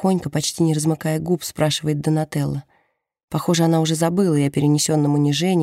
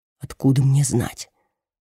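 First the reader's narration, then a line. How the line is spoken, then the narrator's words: Whispered reply. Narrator (Russian): Тоже шепотом отвечает ей Серджио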